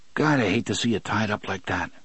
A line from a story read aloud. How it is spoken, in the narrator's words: Eddie murmured